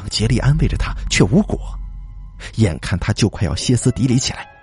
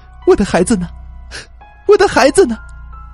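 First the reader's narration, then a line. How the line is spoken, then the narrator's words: Crying, loud frantic. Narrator (Chinese): 苏妹突然就哭了起来，大声的问他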